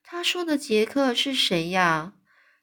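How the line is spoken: Friendly giant speaking. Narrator (Chinese): 这友善的大巨人就对他说了

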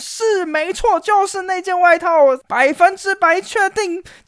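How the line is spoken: Shouting maid. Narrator (Chinese): 女仆大喊

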